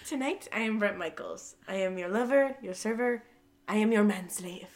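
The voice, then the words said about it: Imitates another person's voice, slight accent. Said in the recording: “He does a little accent, too.”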